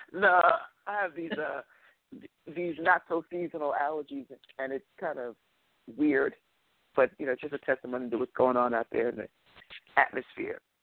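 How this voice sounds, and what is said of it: Congested, low clogged-up voice. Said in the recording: “you sound a little clogged up from the beginning... It's always in the basement when I wake up.”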